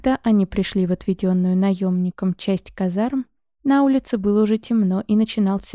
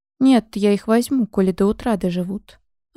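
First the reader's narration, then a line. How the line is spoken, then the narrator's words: Plain. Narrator (Russian): ответил торговец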